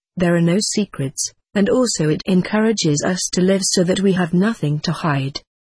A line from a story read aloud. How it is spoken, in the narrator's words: smiled as kindly as he replied